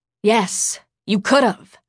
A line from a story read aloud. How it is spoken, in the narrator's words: Sarah snapped